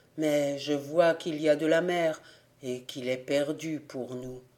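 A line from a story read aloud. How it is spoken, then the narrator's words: Sad. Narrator (French): dit-il tristement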